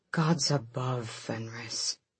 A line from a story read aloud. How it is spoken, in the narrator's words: Gavriel murmured